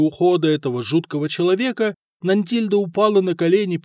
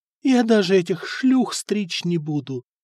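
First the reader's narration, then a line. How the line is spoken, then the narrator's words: Feverish whisper. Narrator (Russian): лихорадочно шептала она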